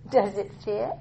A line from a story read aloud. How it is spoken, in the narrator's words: he asked somewhat playfully